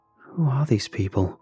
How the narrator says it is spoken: whispered to myself so quietly I could barely hear it

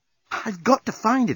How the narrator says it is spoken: exclaimed Nettie

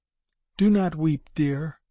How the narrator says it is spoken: she said feebly

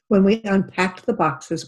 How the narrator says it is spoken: my mom exclaimed with delight

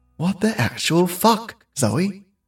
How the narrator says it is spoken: she said to herself quietly

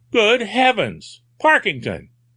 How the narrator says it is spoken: exclaimed

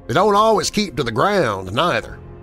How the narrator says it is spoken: came in Hank's slow, heavy drawl

